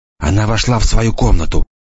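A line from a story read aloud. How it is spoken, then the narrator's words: Whispered. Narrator (Russian): прошептал Енах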